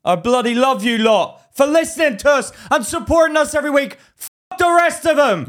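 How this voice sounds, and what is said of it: Hyped wrestler-style promo voice. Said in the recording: “You sound like a wrestler right now.”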